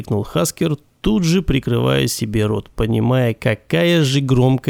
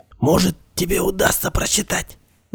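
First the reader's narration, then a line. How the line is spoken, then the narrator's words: Whisper. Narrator (Russian): Закончил он, перейдя на шепот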